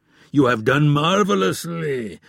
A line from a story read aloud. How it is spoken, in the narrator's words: roared Omar